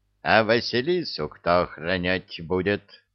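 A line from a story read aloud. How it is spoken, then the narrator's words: Menacing rooster's question. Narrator (Russian): грозно вопросил петух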